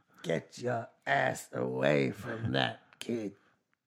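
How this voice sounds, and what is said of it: Poor Donald Pleasance impression. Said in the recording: “my horrible Donald Pleasance in Halloween impersonation, and it came out all wrong”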